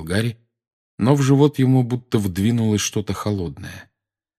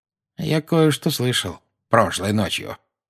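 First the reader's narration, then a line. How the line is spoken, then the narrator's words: Quiet. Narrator (Russian): негромко сказал Дадли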